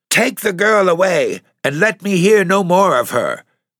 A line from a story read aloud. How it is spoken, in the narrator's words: cried Lady Ducayne in the thin old voice which so poorly matched the energy and fire of the wicked old brain that guided its utterances